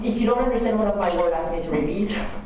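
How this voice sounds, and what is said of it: French accent. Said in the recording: “I'm sorry first about my accent, I'm from France”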